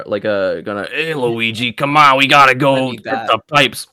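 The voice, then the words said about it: Put-on Brooklyn accent. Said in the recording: “Brooklyn accent? ... be Brooklyn Mario.”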